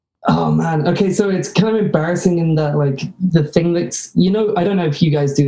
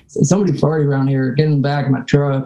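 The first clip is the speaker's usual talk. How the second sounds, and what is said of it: Put-on Midwestern American accent. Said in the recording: “your best American accent ... for the American accent ... You sound like a Midwesterner ... You sound like everybody I sell cars to ... you killed it”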